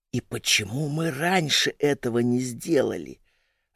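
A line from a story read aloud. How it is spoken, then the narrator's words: Whispered question. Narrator (Russian): отчего-то шепотом спрашивала Ульяна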